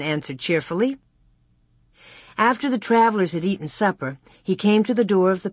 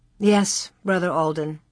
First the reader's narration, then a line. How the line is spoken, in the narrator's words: Ma answered sadly